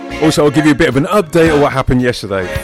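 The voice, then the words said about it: Deep voice. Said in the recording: “my voice is a bit deep”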